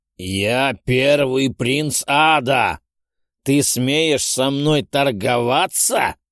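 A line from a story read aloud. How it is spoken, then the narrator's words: Roaring. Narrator (Russian): взревел Ахриман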